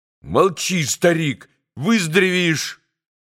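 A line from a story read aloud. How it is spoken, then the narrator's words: Sudden angry shout. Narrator (Russian): точно осердившись, крикнул вдруг Красоткин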